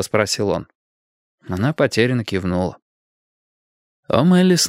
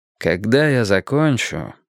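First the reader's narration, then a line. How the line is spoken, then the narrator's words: Tired. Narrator (Russian): устало сказал Перри Мейсон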